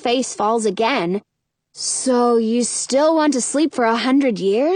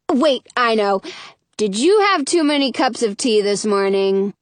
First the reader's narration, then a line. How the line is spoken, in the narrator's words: She laughs